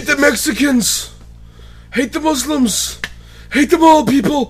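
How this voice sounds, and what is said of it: Weak put-on New York accent, ranting. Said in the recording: “I'm terrible at doing a New York accent. ... That's, that's pretty bad.”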